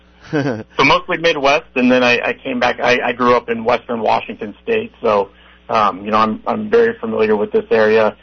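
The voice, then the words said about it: Strained, hoarse voice giving out. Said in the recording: “Sorry, my voice is giving out”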